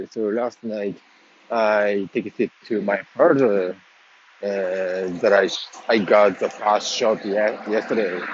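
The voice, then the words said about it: Unclear, congested voice. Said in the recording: “I'm a little bit feeling the allergy, so that's my voice is not clear”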